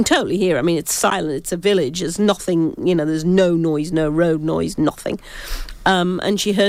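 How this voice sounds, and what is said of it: Usual voice. Nothing is said of it.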